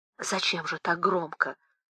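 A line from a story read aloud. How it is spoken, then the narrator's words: Sharp whispered interruption. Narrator (Russian): шепотом оборвала хозяйка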